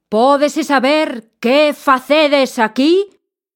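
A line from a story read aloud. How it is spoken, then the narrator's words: Furious shout. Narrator (Galician): berrou enfurecido ao ver os nenos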